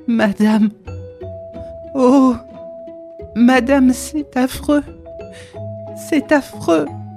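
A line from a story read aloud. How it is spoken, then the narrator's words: Broken, halting voice. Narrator (French): d'une voix entrecoupée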